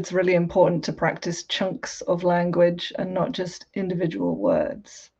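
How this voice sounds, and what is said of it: Southern English received pronunciation accent. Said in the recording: “my accent, I guess you would describe it as British received pronunciation ... I'm English from the south of England, which for years was considered as BBC English”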